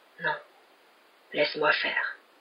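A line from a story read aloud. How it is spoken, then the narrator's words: Murmured. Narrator (French): murmura-t-il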